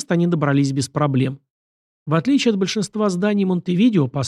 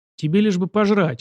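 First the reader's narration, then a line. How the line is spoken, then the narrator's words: Snorting. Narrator (Russian): хмыкнул Богомаз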